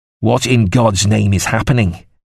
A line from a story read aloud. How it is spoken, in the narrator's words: Goddington demanded angrily